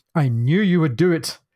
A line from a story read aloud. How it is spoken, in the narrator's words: cried the master